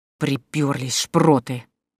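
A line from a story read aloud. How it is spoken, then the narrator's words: Angry hissing. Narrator (Russian): злобно шипела в сторону атакующих Евгения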